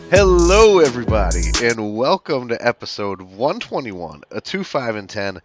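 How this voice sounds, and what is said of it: Scratchy, raspy voice. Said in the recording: “the scratchy, the raspy voice, the throat's a little bit sore”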